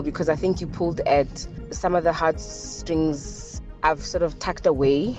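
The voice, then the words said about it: Emotional, slightly shaky voice. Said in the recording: “I'm a bit emotional”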